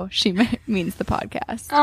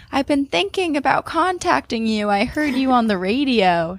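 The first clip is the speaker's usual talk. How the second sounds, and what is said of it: Little girl voice. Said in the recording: “in her little girl voice”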